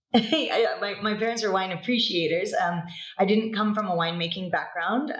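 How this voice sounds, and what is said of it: American Californian accent. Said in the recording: “People can hear from your accent that you're not South African, that you are an American, and you're from California, and you've maintained your accent”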